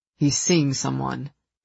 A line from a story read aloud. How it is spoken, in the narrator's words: he said flatly